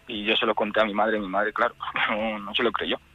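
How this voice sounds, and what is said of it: Trembling, emotional voice. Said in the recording (Spanish): “se me está poniendo la voz temblorosa otra vez”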